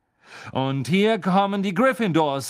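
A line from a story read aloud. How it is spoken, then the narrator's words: Commentator calling out. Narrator (German): rief Lee Jordan, der wie immer das Spiel kommentierte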